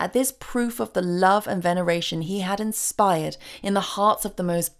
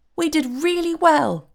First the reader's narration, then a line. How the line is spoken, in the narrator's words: cried the fairy in a pleased voice